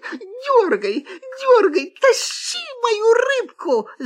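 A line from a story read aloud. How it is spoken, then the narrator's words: Fox shouting. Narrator (Russian): закричала лиса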